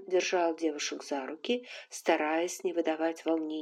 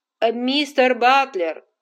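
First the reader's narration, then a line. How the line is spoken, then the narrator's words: Man's shout. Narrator (Russian): крикнул один из мужчин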